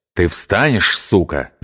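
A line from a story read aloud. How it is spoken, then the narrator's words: Hissing warder. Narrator (Russian): зашипел надзиратель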